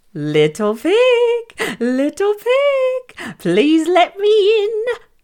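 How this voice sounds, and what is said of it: Friendly-sounding wolf character voice. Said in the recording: “in his friendliest voice”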